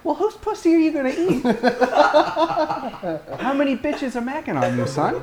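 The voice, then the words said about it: Imitates the speaker's mother's voice. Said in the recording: “That's a pretty good impression of my mom”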